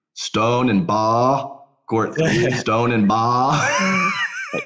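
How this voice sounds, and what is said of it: Thick Australian accent, dropped R. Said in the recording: “his Australian accent gets thicker ... thicker for sure ... There's an R there, buddy.”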